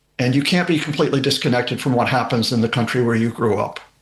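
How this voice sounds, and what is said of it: American accent. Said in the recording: “You can tell from the accent that I was born and raised there.”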